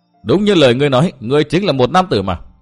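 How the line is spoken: Loud laughter, young girl. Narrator (Vietnamese): Hắc Y thiếu nữ cười lớn

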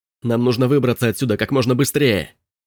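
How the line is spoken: Shouting over noise. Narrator (Russian): Крикнул Робби, перекрывая шум генератора

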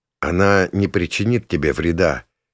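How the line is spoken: Quiet, close to ear. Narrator (Russian): тихо говорю я в острое ухо

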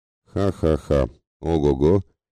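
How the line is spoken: Mocking laughter. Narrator (Russian): рассмеялся язвительно Бурзаган

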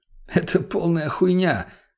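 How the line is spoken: Laughing. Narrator (Russian): засмеялся

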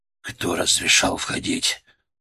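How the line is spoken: Growl. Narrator (Russian): Он прорычал

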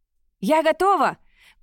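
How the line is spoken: Shouting from afar. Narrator (Russian): крикнула она с кормы корабля

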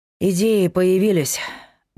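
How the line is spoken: Sighing. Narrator (Russian): вздохнул Павел

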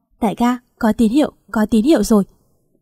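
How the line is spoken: Loud urgent shout. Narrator (Vietnamese): Phan Đường hét to

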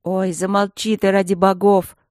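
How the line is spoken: Tired. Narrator (Russian): устало сказала я

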